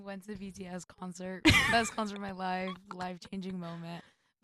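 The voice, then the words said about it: Hoarse, partly lost voice. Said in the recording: “My voice is a little gone right now. ... now we're stuck with this voice for who knows how long.”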